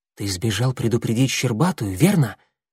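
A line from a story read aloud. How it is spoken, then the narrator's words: Whispered question. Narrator (Russian): шепотом спросил его Клубок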